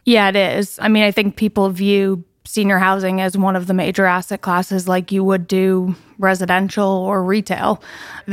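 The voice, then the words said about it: New York accent. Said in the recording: “you've got a New York accent.”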